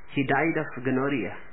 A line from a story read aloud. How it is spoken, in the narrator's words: said the widow